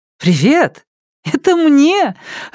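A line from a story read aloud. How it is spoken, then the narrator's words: Joyful gasp. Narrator (Russian): радостно ахнула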